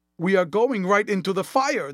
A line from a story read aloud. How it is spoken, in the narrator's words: the boy exclaimed hoarsely